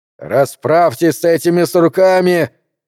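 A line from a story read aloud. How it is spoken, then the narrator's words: Jubilant shouting. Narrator (Russian): ликующе орал он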